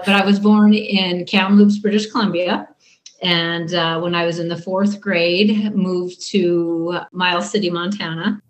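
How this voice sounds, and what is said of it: Slight Canadian North Dakotan accent. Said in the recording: “you might hear a little Canadian / North Dakotan accent ... It's hard to get that accent totally out.”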